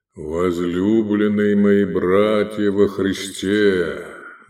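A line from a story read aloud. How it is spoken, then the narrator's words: Deep, trained voice. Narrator (Russian): Начал он глубоким, хорошо поставленным голосом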